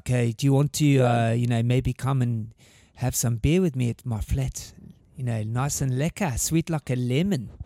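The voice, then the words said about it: Put-on South African accent. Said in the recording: “You're kind of South African, aren't you? ... I picked up the accent pretty quickly ... that's very good. Yeah, that's very good.”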